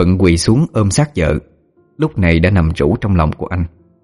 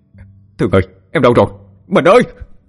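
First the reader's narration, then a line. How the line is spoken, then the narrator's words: Frantic wailing while running. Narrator (Vietnamese): Thuận vừa chạy vừa gào lên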